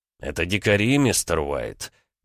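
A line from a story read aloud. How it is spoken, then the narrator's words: Condescending, lecturing tone. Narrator (Russian): начал менторским тоном, словно объясняя прописные истины неразумному ребенку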